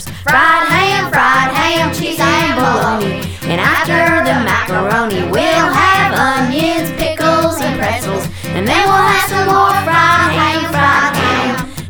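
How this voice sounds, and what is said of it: Singing in a Texas accent. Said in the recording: “Texas accent makes it worse.”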